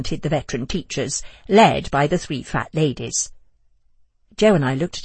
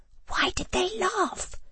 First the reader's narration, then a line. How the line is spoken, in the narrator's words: I hissed to Joe